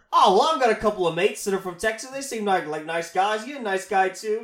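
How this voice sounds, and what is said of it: Weak put-on Australian accent. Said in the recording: “That's not a very good Australian accent”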